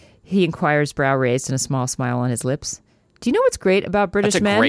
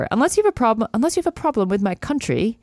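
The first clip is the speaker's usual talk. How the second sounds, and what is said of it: Put-on accent. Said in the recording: “I'm stopping the accent because I can't handle it myself.”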